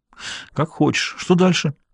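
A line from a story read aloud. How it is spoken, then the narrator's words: Groaning again. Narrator (Russian): Даффи снова застонал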